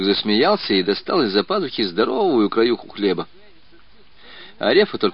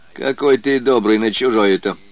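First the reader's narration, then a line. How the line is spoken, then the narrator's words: Laughing man. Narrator (Russian): засмеялся мужик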